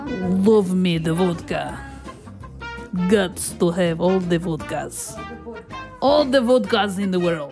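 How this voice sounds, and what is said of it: Put-on Russian accent. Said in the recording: “This drink does not come with a Russian accent.”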